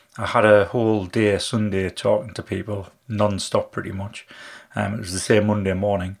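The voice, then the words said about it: Slightly husky, strained voice. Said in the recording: “my voice is a little bit husky at the moment. A little bit of a sore throat, purely through talking so much this week.”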